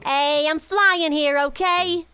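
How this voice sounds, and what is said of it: Put-on New Jersey accent. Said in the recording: “Jersey accent”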